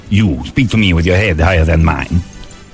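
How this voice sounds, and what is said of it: Yul Brynner impression, Siamese king accent. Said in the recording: “It was Siamese. ... Yul Brynner had that accent. That was just his accent.”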